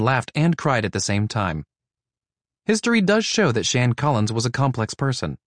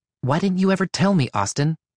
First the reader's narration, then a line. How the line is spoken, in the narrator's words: Shan said